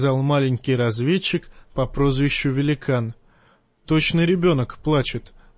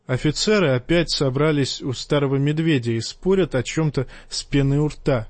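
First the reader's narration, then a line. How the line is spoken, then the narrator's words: Plain. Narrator (Russian): сказал тот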